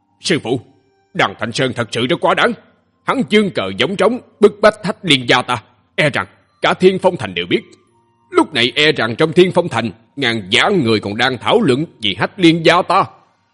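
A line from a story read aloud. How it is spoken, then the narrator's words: Furious. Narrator (Vietnamese): Thiết Kiếm Vũ Thánh tím mặt, tức giận nói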